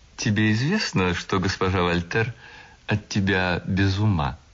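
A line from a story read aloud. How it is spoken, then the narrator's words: Laughing cheerful question. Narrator (Russian): Мадлена засмеялась веселым искренним смехом и спросила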